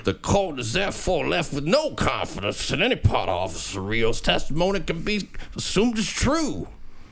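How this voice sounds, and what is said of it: Failed Southern accent, sounds New York. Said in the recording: “Usually I do this in Southern... That sounds like such a New York accent... It doesn't sound right at all.”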